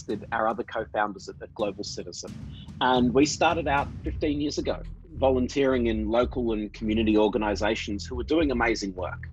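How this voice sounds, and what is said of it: Australian accent. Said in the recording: “as you can probably tell from my accent, I grew up in Australia”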